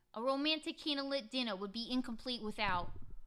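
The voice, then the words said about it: Put-on New York accent, angry. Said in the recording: “New York accent ... That was really good. ... I was just got angry, and then I just enunciate a little weird.”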